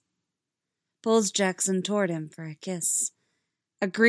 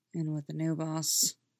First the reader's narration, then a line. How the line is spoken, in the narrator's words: Derek mutters